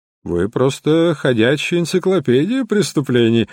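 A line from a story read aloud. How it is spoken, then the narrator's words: Laughing. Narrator (Russian): рассмеялся Стэнфорд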